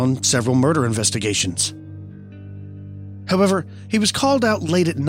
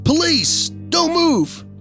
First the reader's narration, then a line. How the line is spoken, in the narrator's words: my grandfather yelled